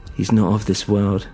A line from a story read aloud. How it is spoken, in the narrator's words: said